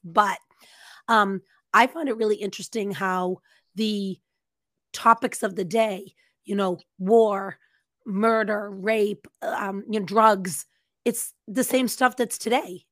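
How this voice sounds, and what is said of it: Hoarse, laryngitis-affected voice. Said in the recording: “my voice is not great. I've got a little bit of laryngitis”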